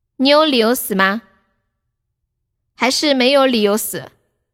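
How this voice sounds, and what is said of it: Cantonese-accented broken Mandarin. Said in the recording (Chinese): “广东本地口音的医生，用蹩脚的普通话”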